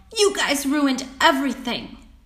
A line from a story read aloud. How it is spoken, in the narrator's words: yelled